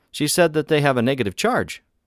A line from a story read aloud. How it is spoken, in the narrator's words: I said excitedly